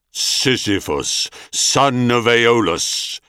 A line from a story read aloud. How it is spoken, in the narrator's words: Thanatos intoned in quelling accents